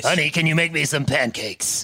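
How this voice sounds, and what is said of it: Smooth radio DJ voice. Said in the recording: “That's honey, FM voice ... we can all get into the smooth FM voice”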